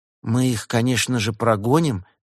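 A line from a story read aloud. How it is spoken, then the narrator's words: Soft gentle voice. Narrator (Russian): мягко сказала она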